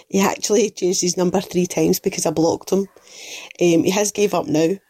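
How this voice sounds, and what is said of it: Strong Scottish Glaswegian accent. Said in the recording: “A fucking great accent ... I didn't even understand what she was saying. It was so good. ... I love a Scottish accent. ... I believe that sounded Glaswegian ... somewhere up north ... I think that was Glaswegian.”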